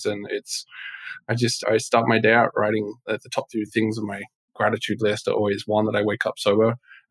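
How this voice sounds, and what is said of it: English accent. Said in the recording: “I hear an accent ... I'm not from Texas ... I cannot do a Southern accent ... I was born in England”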